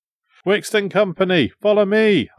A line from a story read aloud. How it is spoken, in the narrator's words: I shouted